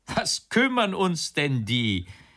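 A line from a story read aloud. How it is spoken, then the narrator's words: Big guard calling out. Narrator (German): rief der große Wächter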